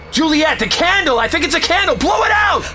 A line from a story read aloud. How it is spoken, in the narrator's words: Connor yelled